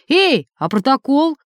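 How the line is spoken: Shouted, breaking off. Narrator (Russian): крикнул Ростик, забыв, с кем имеет дело, и осекся

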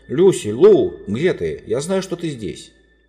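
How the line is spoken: Shouted. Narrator (Russian): закричал

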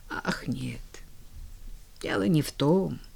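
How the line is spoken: Gloomy mumble. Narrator (Russian): пробормотала миссис Кэррию все так же уныло

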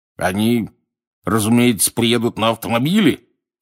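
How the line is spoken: Growl across table. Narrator (Russian): зарычал через стол дядя Вернон

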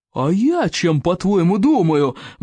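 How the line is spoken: Angry roar. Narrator (Russian): взревел стоик обширный, в гневе

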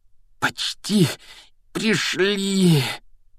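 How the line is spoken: Heavy exhausted exhale. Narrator (Russian): Тяжело выдохнул Гарри

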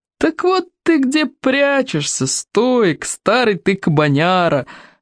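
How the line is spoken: Joyful yelling. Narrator (Russian): радостно заорала она

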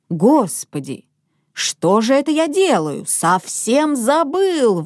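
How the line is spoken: Sudden exclamation, father. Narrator (Russian): воскликнул вдруг папа

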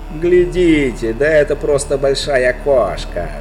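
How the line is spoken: Shouting. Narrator (Russian): закричал один

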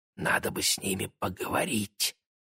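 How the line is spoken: Conspiratorial whisper. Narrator (Russian): заговорщически шепнул близнецам Игорь

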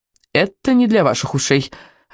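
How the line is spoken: Irritated reply. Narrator (Russian): ответила довольно раздраженно

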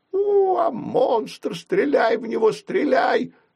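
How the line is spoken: Hoarse wheeze. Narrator (Russian): захрипел переодетый милиционер

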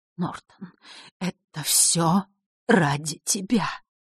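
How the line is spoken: Soundless whisper. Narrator (Russian): прошептала она одними губами

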